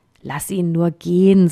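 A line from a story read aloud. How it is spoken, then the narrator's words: Plain. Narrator (German): sagte ein anderer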